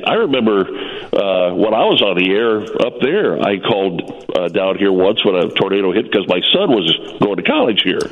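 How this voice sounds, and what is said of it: Congested, cracking voice from cold. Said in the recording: “I've got a cold. My voice is breaking. I'm going through puberty here.”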